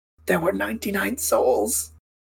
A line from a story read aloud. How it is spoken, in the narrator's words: Lawrence kind of whispers, while bleeding and in pain